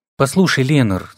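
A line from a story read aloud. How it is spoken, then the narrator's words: Forced calm, thoughtful. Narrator (Russian): старался говорить спокойно и вдумчиво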